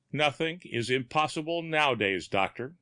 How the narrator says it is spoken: he said

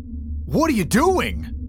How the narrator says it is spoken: Wallace yelled

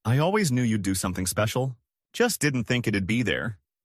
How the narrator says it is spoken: I replied

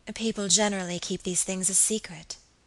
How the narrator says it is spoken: said my lady gravely

